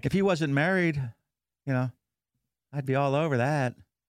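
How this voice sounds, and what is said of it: Put-on female character voice. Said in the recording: “That's my chick voice in the office.”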